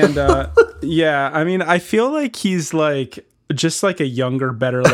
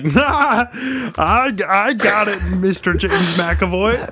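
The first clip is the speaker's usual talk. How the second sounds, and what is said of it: Impression of Ken Marino. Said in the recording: “That was a really good impersonation.”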